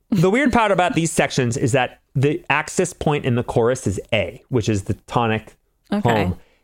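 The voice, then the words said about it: Boston accent. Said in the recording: “You just had such a Boston accent when you said that... The weird part.”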